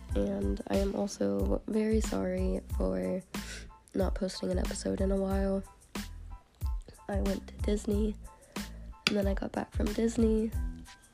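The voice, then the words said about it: Sick-sounding voice. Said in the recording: “I'm sorry for my voice. I'm sick”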